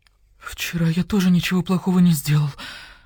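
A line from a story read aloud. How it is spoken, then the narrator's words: Moaning. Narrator (Russian): простонал писец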